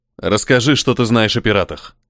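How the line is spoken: Sharp question. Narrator (Russian): Спрашиваю резко

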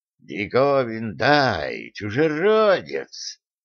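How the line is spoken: Loud hiss offstage. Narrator (Russian): громко прошипел кто-то за сценой

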